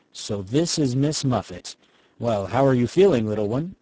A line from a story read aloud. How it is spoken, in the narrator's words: gravely say